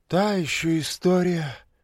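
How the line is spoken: Lighthearted sigh. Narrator (Russian): легкомысленно вздохнула Лиза

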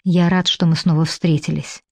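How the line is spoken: Quiet. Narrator (Russian): говорит негромко

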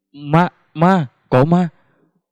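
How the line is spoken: Stammering girl's cry. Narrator (Vietnamese): cháu gái bà Trình miệng lắp bắp kêu

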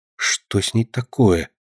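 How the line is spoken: Quiet young woman asking. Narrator (Russian): тихо спрашивала девушка

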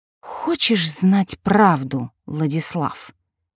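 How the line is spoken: Spoken through gritted teeth. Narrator (Russian): процедила она

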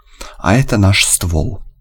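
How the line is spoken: Snorting chuckle. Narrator (Russian): Белый хмыкнул

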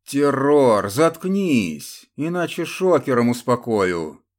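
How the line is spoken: Menacing shout. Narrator (Russian): грозно крикнул один из тащивших Глеба конвоиров

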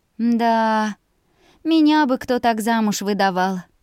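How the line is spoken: Chuckle. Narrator (Russian): Служанка хохотнула

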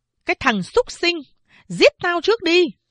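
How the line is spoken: Shrill scream. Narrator (Vietnamese): Mẹ tôi thét lên chói tai

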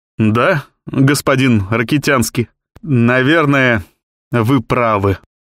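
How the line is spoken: Embarrassed, forced out, journalist. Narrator (Russian): выдавил из себя журналист в смущении

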